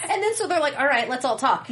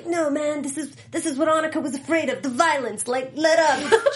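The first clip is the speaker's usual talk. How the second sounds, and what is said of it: South African accent imitating American. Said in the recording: “Good South African accent. ... It was like South African trying to be American”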